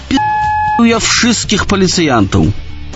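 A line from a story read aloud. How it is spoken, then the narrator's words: Loud careless shout. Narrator (Belarusian): думаючы, што я жартую, гучна крыкнуў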